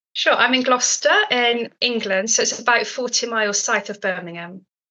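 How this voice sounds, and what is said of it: Noticeable English accent. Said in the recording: “the first thing that people listening might have noticed is your accent”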